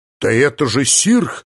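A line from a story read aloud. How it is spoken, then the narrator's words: Exclaimed. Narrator (Russian): воскликнул, наконец, сообразительный Варис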